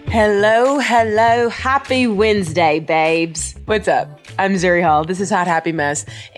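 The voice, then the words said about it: Attempted British accent sounding Australian. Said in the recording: “do a British accent. As soon as I did it, it just felt super Australian.”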